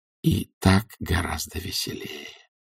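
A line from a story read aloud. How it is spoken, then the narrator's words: Whispering. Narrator (Russian): прошептал он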